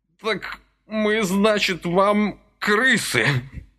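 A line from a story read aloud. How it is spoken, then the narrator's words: Sobbing. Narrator (Russian): прорыдал он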